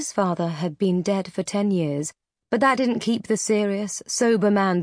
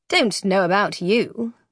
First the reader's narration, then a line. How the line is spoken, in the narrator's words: the other man said dryly